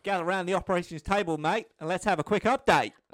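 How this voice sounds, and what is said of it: Put-on Australian accent. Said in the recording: “I'm so sorry for this Australian accent.”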